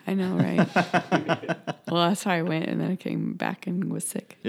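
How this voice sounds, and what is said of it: Scratchy, slightly hoarse voice. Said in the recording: “I still sound funny ... Voice sounds a little bit scratchy”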